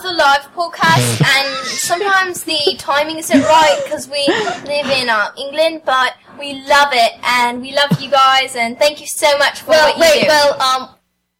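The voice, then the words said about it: British accent. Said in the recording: “It's hard to tell with the British accents ... Totally love the accent”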